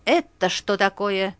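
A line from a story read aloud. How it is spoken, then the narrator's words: Angry bark in ear. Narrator (Russian): сердито гаркнул прямо на ухо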